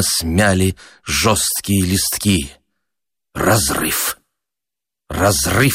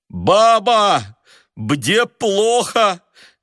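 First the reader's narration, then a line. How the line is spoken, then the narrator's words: Shouted with a stuffy nose. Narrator (Russian): крикнул он сквозь насморк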